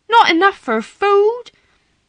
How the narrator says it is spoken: Martha cried aloud

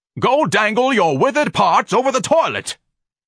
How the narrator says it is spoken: Ignatius screamed savagely

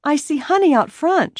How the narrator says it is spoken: said eagerly

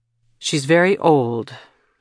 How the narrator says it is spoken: said firmly

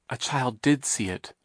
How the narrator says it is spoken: Violet whispered to Klaus

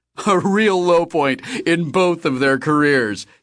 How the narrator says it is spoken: he said, laughing

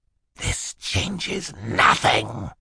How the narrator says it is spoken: he hissed at them

